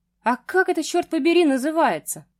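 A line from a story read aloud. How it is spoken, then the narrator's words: Shouted. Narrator (Russian): прокричал мужчина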